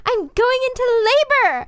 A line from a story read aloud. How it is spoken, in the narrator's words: I cried